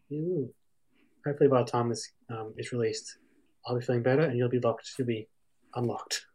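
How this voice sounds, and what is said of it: Slightly off, unwell-sounding voice. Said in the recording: “My voice is still a bit funky, but I'm getting there.”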